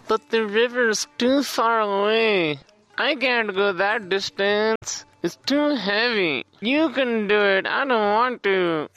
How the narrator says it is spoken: they whined

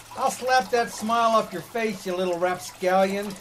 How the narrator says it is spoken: He yelled, soaking wet with water

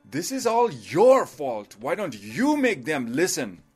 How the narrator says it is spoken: Loba started yelling

